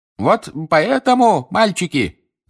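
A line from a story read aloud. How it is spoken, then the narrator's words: Shouting over crowd noise. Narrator (Russian): закричал мистер Уизли, перекрывая рев толпы внизу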